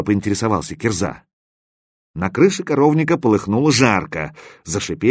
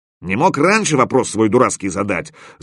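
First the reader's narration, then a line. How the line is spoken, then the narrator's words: Angry snap. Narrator (Russian): зло огрызнулся Стопка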